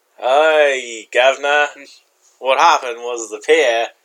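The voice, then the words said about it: Unconvincing put-on British accent. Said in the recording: “Say it with a British accent ... That's not British.”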